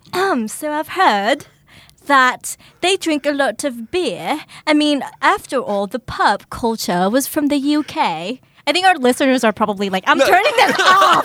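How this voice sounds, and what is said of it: Put-on British accent. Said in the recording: “you try doing the interview all in a British accent.”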